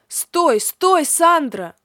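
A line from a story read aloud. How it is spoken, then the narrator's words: Shouting after someone. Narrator (Russian): закричал мне вслед несносный Леонардо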